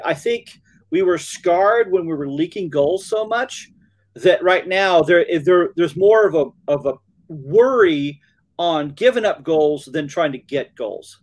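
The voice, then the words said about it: Alabama accent. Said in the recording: “my Alabama accent”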